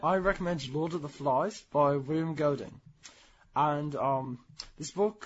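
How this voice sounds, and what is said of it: Put-on British accent. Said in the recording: “but you're not British. You're American. ... I have a good British accent, don't I?”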